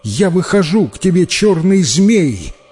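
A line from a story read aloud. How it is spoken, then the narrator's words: Tearful girl crying out. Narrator (Russian): В слезах воскликнула девушка, и крикнула она змею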